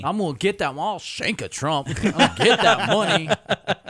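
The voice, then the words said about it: Imitates another person's voice. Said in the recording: “doing an impression ... That was an impersonation of another human being making a joke. ... That's your parody of Jeffrey Breslow.”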